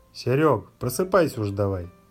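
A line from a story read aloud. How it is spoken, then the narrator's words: Overly cheerful. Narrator (Russian): Чрезмерно бодро сказал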